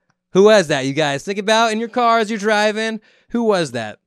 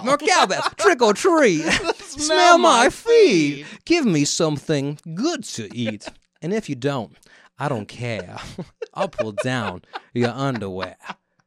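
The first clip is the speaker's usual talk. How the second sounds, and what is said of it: Imitates another person's voice. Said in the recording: “That was Christopher Walken. Actually, that was Kevin Spacey doing Christopher Walken impression. It's my impression of Kevin Spacey doing an impression of Christopher Walken ... that's how he talks”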